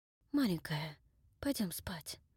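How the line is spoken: Muttered. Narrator (Russian): пробормотал он

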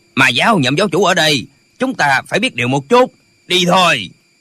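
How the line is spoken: Old man barking. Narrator (Vietnamese): Lão quát

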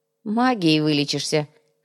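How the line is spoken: Snorted. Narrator (Russian): хмыкнул Доминго

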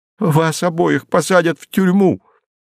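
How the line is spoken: Sobbing. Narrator (Russian): всхлипывала заблудшая душа

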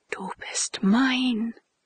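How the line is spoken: Whisper. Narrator (German): Josephine flüsterte

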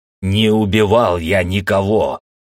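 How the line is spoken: Hoarse roar. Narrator (Russian): хрипло проревел я

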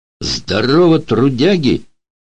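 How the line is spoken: Cheerful shout. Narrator (Russian): весело крикнул один

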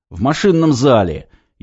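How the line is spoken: Louder rude bark over phone. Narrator (Russian): еще сильнее гаркнул из трубки грубиян Корнеев

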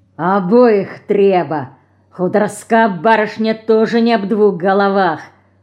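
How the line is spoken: Forced out with malice. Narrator (Russian): выдавился злобой Федор Матюшкин

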